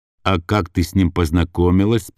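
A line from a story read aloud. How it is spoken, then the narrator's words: Plain. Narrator (Russian): спросил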